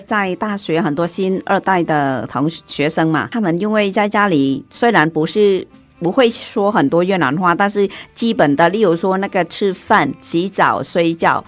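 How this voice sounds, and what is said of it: Mandarin with authentic Vietnamese accent. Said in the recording (Chinese): “道地的越南的口音 ... 像你们两个讲话就有鱼露鱼露的味道”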